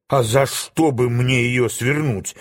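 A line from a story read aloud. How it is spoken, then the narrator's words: Snapping retort. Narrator (Russian): огрызнулся Билан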